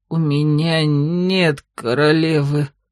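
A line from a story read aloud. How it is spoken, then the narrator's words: Horrified mutter. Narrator (Russian): пробормотал Мишель, с ужасом осознавая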